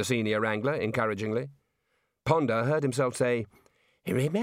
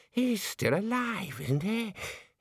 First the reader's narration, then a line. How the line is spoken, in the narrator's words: He wheezed